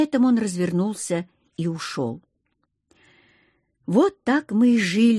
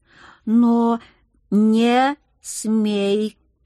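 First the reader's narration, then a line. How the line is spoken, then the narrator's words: Hissed syllable by syllable. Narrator (Russian): по слогам процедил муж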